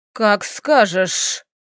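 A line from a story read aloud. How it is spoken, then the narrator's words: Hissing. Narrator (Russian): прошипел лорд Раун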